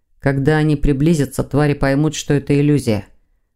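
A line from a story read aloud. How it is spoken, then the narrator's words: Gloomy reply. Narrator (Russian): мрачно отозвался Сазонов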